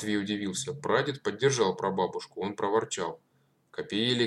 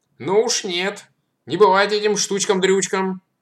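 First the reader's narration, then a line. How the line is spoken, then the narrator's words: Stern elderly woman. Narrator (Russian): строго откликнулась прабабушка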